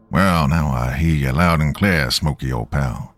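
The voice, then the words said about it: Put-on hillbilly accent. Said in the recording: “Putting on my best hillbilly accent”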